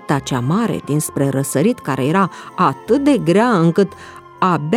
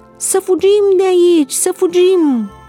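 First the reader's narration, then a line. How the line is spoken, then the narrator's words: Many voices shouting. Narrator (Romanian): mulțimi de glasuri erau auzite strigând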